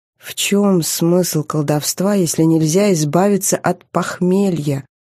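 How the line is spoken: Weary hiss. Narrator (Russian): прошипела, хотя на раздражение не было сил

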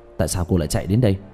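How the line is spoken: Frightened. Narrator (Vietnamese): Diệp Thiếu Dương lập tức sợ hãi

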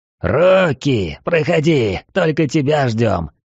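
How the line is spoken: Growled. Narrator (Russian): прорычал он

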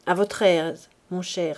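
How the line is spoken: Cold. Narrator (French): dit-elle froidement

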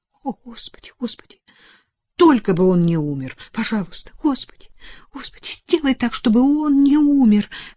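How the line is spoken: Sobbing whisper. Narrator (Russian): всхлипывая, шептала Элизабет

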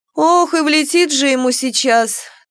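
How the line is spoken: Tragic sigh. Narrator (Russian): трагично вздохнула Мурена

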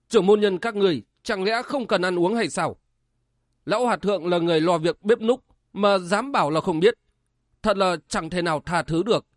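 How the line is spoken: Shouting. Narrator (Vietnamese): Đinh Tiểu Nam quát lên

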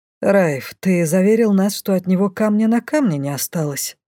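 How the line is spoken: With a snort. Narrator (Russian): Лей хмыкнул

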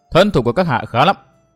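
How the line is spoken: Cold. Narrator (Vietnamese): Trạm tình nữ lạnh lùng nói

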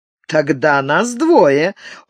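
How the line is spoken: Laughing. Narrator (Russian): засмеялся

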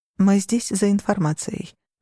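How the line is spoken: Low voice. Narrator (Russian): вполголоса сказала я

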